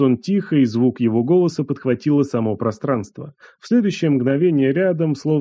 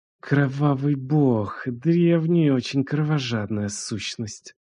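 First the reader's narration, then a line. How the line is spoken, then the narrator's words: Hissed. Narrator (Russian): прошипела она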